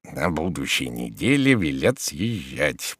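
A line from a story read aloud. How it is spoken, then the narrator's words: Wheezed hoarsely. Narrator (Russian): просипел Захар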